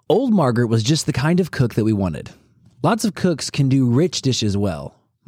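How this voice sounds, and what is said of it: Theatrical dramatic reading voice. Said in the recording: “put on my theater voice”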